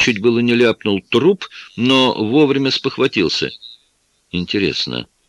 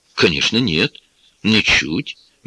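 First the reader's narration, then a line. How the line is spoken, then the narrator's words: Soft reply. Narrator (Russian): мягко ответил я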